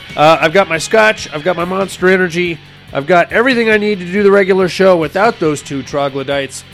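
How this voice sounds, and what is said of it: Hoarse, raspy sick voice. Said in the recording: “I'm sick ... I'm probably sounding a little hoarse, a little raspy right now ... until I lose what little voice I have left”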